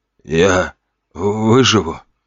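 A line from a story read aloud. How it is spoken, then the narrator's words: Trembling voice. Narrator (Russian): спросил тот дрожащим голосом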